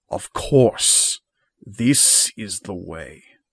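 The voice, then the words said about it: Deep, thrumming, strong character voice. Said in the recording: “a voice much stronger than you've ever heard ... Bereft of its raspy, wizened nature, the cloak speaks with a deep, thrumming voice.”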